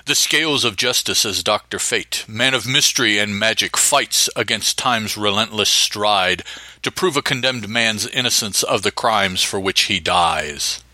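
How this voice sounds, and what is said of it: Dramatic radio narrator voice. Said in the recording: “narrator voice”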